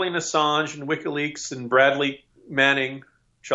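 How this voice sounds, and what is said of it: Usual voice. Nothing is said of it.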